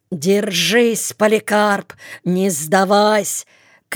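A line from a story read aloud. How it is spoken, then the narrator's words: Big man shouting. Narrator (Russian): кричал Лопухинский, верзила с проломленным носом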